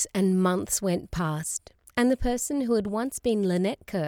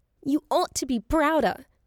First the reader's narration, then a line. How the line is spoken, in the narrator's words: she yelled in her passion and grief